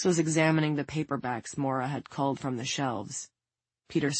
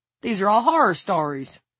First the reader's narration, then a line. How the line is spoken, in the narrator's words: Hicks exclaimed